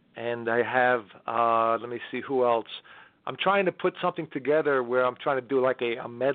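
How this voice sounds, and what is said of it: Usual voice. Nothing is said of it.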